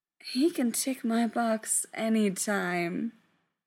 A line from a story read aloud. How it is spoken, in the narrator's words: Frank said dreamily